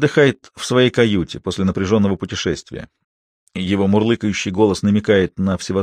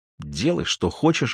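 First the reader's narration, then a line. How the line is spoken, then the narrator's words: Fierce mutter. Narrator (Russian): бормочет Алиса со свирепым видом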